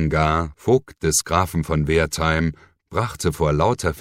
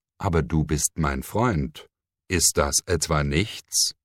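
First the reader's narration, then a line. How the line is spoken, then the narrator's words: Plain. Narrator (German): fragte er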